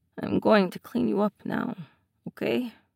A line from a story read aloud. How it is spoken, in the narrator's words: Ilya says in a low voice